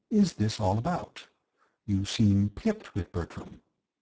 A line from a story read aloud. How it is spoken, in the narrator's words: I said gently